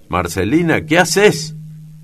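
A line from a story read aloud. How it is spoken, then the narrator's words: Mother shouting. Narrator (Spanish): grita la madre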